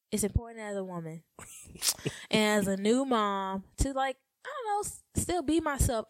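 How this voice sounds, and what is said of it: Noticeable regional accent. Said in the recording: “I love the way you say woman. ... I love your accent. ... You even said accent with an accent.”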